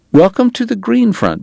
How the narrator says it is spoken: Bat said tightly

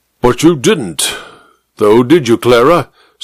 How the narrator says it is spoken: snorted the major

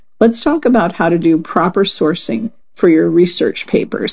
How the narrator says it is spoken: I said

